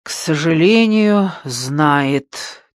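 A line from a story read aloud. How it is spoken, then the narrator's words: Heavy sigh. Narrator (Russian): тяжело вздохнул Теций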